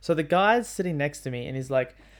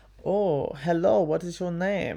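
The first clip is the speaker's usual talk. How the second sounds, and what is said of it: Put-on Bulgarian accent, imitated man. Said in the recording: “he's got a bit of an accent ... I am from Bulgaria ... this is going to be a terrible accent ... it's literally kind of how he sounded”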